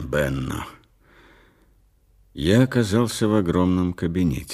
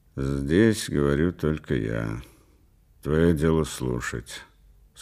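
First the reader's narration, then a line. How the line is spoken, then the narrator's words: Dry and cold. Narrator (Russian): сказал он сухо и холодно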